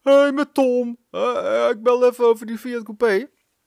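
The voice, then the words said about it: North-Holland Dutch accent. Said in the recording (Dutch): “met een Noord-Hollands accent”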